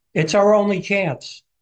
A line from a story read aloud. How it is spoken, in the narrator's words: shouts back